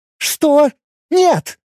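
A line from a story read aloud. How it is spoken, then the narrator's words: Exclaiming. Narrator (Russian): воскликнула Лина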